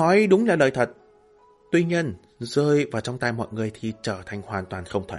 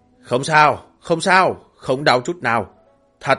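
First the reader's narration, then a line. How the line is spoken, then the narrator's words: Smiling reassurance. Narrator (Vietnamese): Cố Uyên mỉm cười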